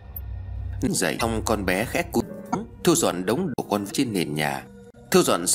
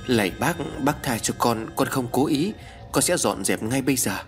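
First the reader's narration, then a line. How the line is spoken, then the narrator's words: Frightened child mumbling. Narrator (Vietnamese): Con bé Vi trên tay run rẩy, mồm lẩm bẩm nói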